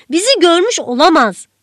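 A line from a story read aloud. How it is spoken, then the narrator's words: Shouted. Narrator (Turkish): diye bağırdı Paul, Şefiye'nin yüzüne doğru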